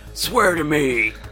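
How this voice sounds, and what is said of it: Deep gravelly Batman voice. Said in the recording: “You got to Batman it up a little bit.”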